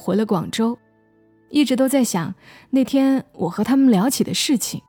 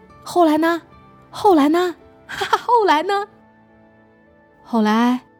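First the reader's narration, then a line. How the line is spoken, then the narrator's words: Laughing, asking repeatedly. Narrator (Chinese): 田丽，哈哈大笑，不停的问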